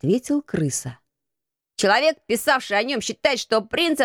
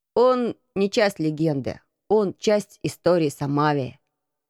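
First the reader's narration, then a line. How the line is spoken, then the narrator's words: Plain. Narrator (Russian): сказал Марко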